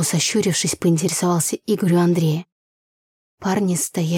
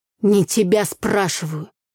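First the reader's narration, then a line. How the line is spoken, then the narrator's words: Through gritted teeth. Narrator (Russian): Процедил сквозь зубы Игорь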